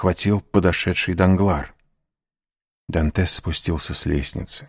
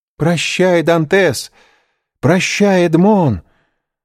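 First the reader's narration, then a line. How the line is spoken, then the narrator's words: Shouting. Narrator (Russian): закричала Мерседес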